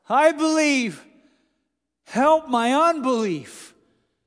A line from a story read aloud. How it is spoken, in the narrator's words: the father of the child cried out